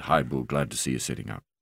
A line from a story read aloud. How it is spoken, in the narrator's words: Mark said quietly